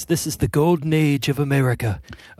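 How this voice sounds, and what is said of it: Imitates another person's voice, poorly. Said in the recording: “That was a terrible impression.”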